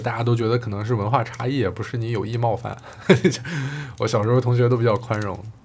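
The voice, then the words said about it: Mandarin with mixed regional accent. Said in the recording (Chinese): “一直没有形成特别稳定的口音，就即便到现在是讲普通话，呃，很多人都会听说我听你这个普通话，感觉你是东北人，有的人说像山东人，还有的比较夸张的是说我像广西人...我自己的口音在无意识当中吸纳了很多地区的元素”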